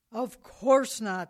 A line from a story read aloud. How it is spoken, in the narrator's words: said the man as he approached the boy angrily